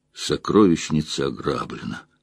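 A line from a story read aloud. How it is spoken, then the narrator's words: Tired. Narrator (Russian): устало сказала Инктор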